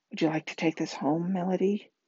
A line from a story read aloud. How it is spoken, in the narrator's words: Mom whispered